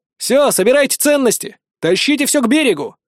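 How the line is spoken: Shout. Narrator (Russian): крикнул

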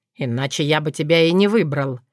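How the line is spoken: Snorting remark. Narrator (Russian): хмыкнул Сокол

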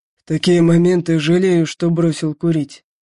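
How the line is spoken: Angry, through clenched teeth. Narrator (Russian): зло процедил

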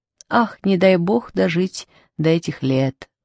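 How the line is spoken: Sighing middle-aged woman. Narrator (Russian): вздохнула средних лет шляпка с пером

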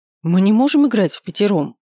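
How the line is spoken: Exclaiming. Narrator (Russian): воскликнула Миранда

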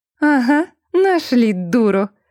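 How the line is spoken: Triumphant, with a chuckle. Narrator (Russian): с торжеством вставила она, хохотнув

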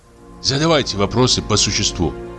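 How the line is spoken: Whispering doctor. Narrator (Russian): шепнул земский врач

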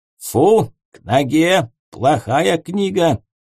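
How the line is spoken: Stern. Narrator (Russian): строго сказал

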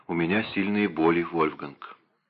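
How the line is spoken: Whisper. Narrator (Russian): она прошептала

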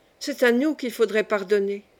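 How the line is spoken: Exclamation. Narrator (French): s'exclama Suzanne

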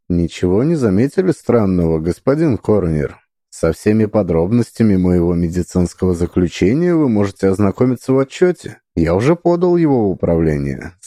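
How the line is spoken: Calm. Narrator (Russian): сказал спокойно

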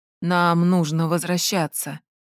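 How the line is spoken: Quiet butler. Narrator (Russian): негромко сказал дворецкий

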